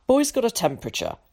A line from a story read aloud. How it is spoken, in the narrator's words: interrupted Tom curtly